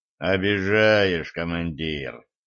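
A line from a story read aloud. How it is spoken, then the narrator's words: Deep bass, forest spirit. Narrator (Russian): пробасил леший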